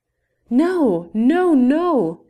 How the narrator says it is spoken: shouted one after another

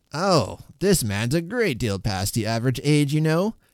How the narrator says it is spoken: cried Mr

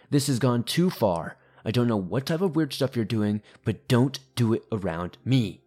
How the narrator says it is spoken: he angrily began yelling

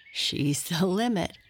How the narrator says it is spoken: chuckled Bird

